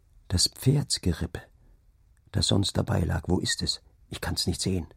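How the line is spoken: Low murmur. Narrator (German): raunte er

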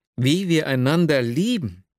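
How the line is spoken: Exclamation. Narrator (German): rief ich aus

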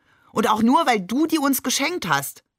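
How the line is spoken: Called out. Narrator (German): rief Shakir

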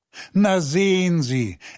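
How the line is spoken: Laughing. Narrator (German): Er lachte

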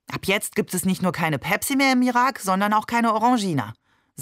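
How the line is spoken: Angry. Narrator (German): sagte er zornig

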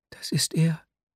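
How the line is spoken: Whispered answer. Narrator (German): antwortete flüsternd

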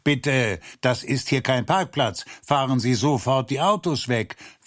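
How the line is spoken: Neighbor calling across. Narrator (German): Der drüben Nachbar rief auch zu ihnen herüber

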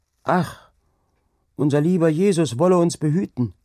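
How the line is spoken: Calling out. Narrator (German): rief Angrete

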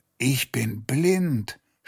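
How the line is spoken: Groaning. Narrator (German): stöhnte er

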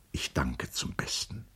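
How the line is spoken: Murmured. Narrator (German): murmelte er

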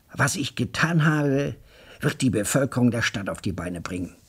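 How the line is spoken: Excited assertion. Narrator (German): behauptete er aufgeregt

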